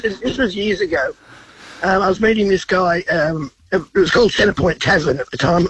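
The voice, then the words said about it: Congested voice from a cold. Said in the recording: “sorry about the voice. I've got a cold.”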